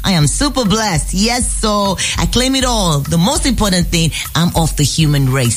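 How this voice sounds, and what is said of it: Nigerian-accented English. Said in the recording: “Nigerian. You can tell from the accent.”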